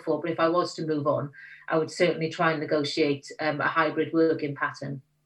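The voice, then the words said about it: Welsh South Wales valleys accent. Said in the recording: “your accent, obviously you're Welsh... South Wales valleys”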